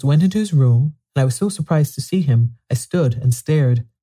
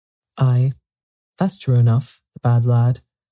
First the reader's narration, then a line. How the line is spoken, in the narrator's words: sighed Martha